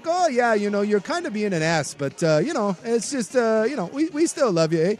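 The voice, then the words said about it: Friendly Canadian accent. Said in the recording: “If a Canadian was insulting you, I still think it would be pretty friendly... friendly tone”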